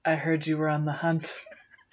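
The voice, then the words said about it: Batman-like character voice. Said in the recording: “I like that voice here, too. ... You sound like Batman.”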